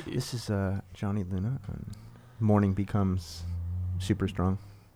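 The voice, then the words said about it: NPR-style radio announcer voice. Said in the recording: “trying to do my NPR”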